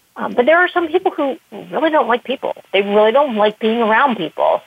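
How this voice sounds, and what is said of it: Persuasive, upbeat voice. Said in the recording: “you have a very persuasive, upbeat voice”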